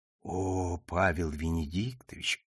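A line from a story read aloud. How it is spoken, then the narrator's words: Modest mumble. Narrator (Russian): пробормотала Шахерезада, скромно опуская глаза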